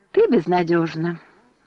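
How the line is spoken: Sighing. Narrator (Russian): вздохнула подруга

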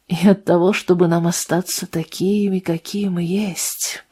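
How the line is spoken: Whispered. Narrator (Russian): прошептал Делл

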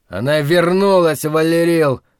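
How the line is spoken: Nearly shouting. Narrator (Russian): почти кричал он

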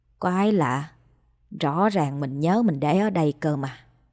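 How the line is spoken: Muttering. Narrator (Vietnamese): miệng lẩm bẩm

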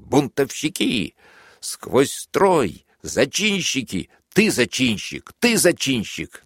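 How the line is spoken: Shrill shouting. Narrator (Russian): как он визгливо кричал

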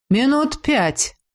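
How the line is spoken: Gloomy. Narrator (Russian): мрачно добавил Некрос

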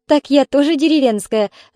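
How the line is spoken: Laughing. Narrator (Russian): засмеялась тетя Рая

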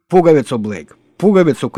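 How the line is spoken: Shouted. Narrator (Russian): крикнула она

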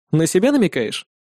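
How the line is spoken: Snorting. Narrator (Russian): хмыкнул я

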